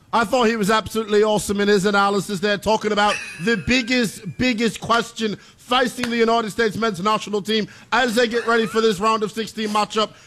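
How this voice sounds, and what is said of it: Put-on accent. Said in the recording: “Accent... we said one accent per hour, pal.”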